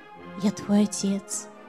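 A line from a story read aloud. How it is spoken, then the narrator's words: Quiet reply. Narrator (Russian): так же тихо ему отвечаю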